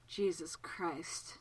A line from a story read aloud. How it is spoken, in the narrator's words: Childermas said hoarsely